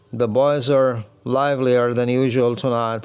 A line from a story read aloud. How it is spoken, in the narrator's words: said Saunders